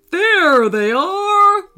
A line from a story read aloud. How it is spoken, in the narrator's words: roared the tiger